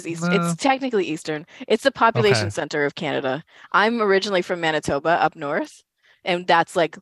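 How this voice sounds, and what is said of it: Canadian accent. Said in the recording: “my Canadian accent”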